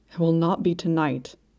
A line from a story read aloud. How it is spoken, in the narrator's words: he said, his voice ragged with horror